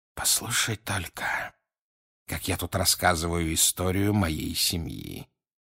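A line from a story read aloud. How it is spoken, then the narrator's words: Quiet remark. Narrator (Russian): тихо заметил он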